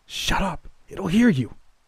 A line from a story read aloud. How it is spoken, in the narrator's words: I hissed